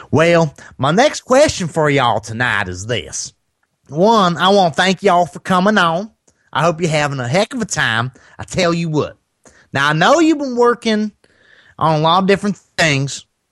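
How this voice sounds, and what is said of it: Put-on Southern Tennessee accent, higher pitch. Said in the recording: “my Tennessee accent ... that's not a bad Southern accent for a Northern guy ... your voice kind of went up higher”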